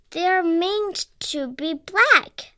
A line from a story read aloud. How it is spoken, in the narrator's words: Paddington called indignantly